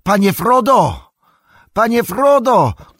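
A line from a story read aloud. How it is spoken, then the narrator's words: Sudden energetic shout. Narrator (Polish): krzyknął Sam, odzyskując nagle głos i energię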